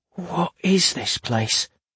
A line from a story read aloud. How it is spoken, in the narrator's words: whispered Alder